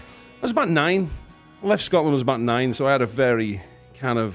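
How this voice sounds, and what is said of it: Thick Northern English accent. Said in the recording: “he's got this thick ... Accent ... I don't really speak with a Scottish accent. I speak with a Northern England accent ... I have a Northern England accent”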